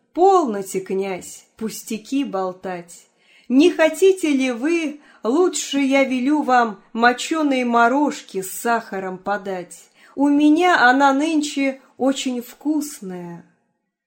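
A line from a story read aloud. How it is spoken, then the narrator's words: Laughing, speaking. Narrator (Russian): только засмеялась и говорит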